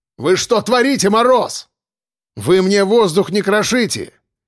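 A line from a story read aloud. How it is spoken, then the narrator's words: Shouted. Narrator (Russian): крикнул я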